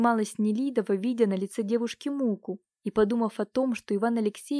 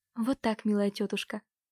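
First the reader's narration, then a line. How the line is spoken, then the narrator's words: Loving babble. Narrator (Russian): пролепетала с любовью Катюша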